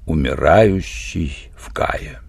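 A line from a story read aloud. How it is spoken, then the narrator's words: Quiet repetition. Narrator (Russian): Тавель негромко повторил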